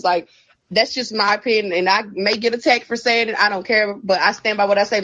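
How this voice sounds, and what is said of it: Southern country accent. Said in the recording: “She's so sweet and country. You can hear her accent ... Her accent was adorable.”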